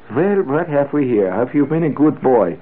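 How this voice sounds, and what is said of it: Avuncular doctor with slight accent. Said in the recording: “It had a slight accent. All avuncular doctors of the period had slight accents.”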